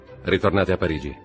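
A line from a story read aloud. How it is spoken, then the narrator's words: Plain. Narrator (Italian): gli disse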